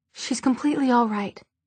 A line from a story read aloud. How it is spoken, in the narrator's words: Isabel said hastily